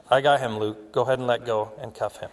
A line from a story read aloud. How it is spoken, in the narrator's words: Dan calmly said